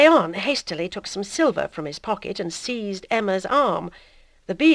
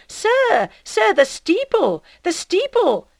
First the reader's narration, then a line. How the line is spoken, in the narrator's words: calling him back, he cried